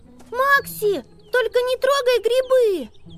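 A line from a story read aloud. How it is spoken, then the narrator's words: Shout after someone. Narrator (Russian): крикнула она ему вслед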